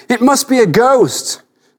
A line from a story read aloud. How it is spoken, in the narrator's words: said, and cried out in alarm